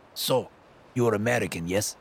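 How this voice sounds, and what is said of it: Thick Russian accent. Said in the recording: “soaked in a thick Russian accent.”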